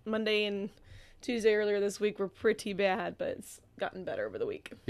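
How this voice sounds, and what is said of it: Slightly raspy voice. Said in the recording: “You're still a little ... raspy.”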